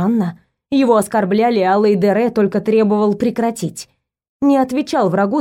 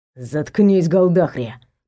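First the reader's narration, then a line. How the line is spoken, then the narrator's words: Said through teeth. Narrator (Russian): процедил Эманор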